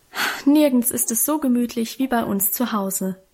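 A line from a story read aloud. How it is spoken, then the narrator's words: Contented sigh, assuring. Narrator (German): hatte Guste mit einem befriedigten Seufzer versichert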